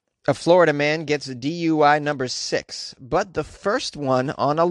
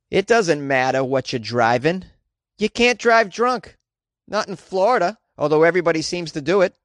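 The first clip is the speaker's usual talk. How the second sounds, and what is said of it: Put-on Boston accent. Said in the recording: “I'm going to do this article with a Boston accent”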